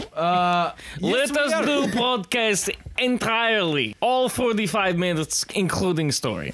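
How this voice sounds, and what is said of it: Put-on Borat-style Eastern European accent. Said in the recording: “We're still doing the accents? ... You sound like Borat now.”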